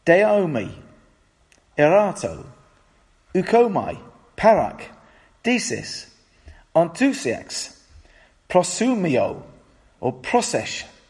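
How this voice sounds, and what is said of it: Clumsy attempt at Greek pronunciation. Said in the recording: “whatever language you're talking, your accent is not very good”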